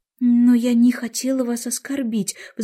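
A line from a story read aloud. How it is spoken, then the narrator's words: Pleading. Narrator (Russian): взмолилась Алиса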